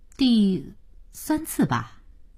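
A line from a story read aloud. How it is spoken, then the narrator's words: Slow careful answer. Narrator (Chinese): 他才慢慢的、谨慎的答道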